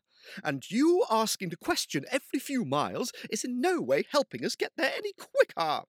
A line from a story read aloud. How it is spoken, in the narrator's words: snapped Finn